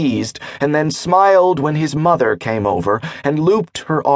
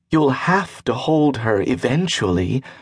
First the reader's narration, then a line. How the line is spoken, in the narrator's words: whispered with a sassy smile